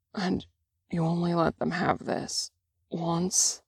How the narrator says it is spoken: Drungen breathes, slurred into Chan's tacky skin

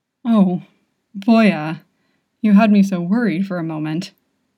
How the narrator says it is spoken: chuckles

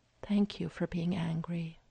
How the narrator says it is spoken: she murmurs

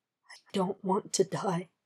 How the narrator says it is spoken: he whispered

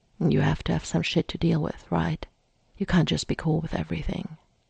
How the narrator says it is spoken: As they kissed Mikey muttered

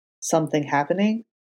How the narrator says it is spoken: Foggy said, lowering his voice a little

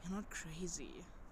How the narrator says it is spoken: Matt sighed

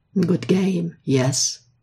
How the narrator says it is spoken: Ilya had said to him sweetly

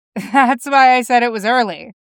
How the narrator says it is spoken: Jim laughed

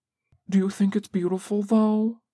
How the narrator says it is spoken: asks a little anxiously

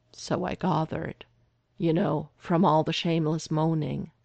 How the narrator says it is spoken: Derek said dryly

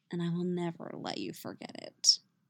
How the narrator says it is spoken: he murmurs

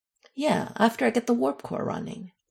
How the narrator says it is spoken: Michael replied dryly

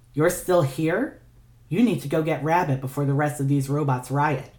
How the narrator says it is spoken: she said evenly, though her eyes were wet

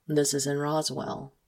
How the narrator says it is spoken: he says calmly

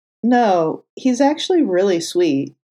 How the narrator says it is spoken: Clint chuckled fondly

